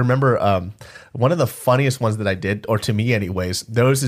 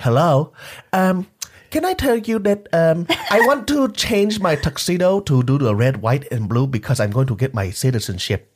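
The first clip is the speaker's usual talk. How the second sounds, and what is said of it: Put-on Vietnamese accent. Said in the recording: “I just did the Vietnamese accent.”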